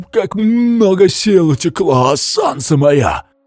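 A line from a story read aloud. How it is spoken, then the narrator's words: Creaking corpse voice. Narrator (Russian): Проскрипел труп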